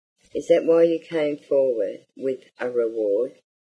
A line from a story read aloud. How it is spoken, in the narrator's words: asked Mary